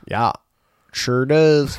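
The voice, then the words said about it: Put-on Minnesota accent. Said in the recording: “Supposed to be my Minnesota accent?”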